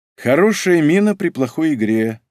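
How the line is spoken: Glum statement. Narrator (Russian): уныло констатировала

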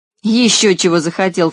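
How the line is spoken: Scornful snort. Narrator (Russian): фыркнул стриженный

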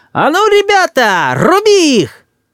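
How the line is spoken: Thin shrill shout. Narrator (Russian): тонким, визгливым голосом закричал

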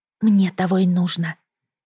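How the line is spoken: Whisper. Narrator (Russian): прошептала

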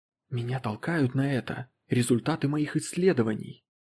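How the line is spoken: Tense whisper. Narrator (Russian): сказал Поттерли напряженным шепотом

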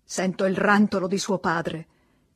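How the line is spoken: Irritated tone. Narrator (Italian): disse in tono stizzito

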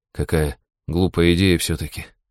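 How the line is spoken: Sighing young man. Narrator (Russian): вздохнул юноша

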